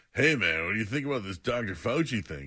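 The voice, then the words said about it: Lazy stoner-like imitation of another person. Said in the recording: “So now I'm a stoner. ... I still sound like a dope.”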